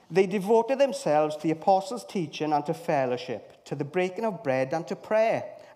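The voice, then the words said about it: Put-on Welsh accent. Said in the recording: “with my best Welsh accent.”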